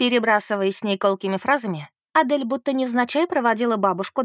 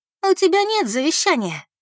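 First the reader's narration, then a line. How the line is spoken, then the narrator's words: Laughing. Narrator (Russian): рассмеялась Адель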